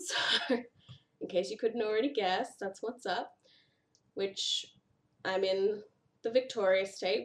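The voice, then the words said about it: Whiny nasal Australian accent. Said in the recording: “I'm from Australia. So that's where the whiny nasally accent comes from.”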